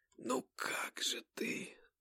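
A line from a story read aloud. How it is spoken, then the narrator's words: Strained, choked voice. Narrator (Russian): сдавленным голосом произнесла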